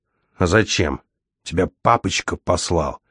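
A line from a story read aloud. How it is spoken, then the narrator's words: Hissing. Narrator (Russian): прошипел Савл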